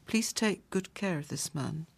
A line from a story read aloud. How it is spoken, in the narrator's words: uttered solemnly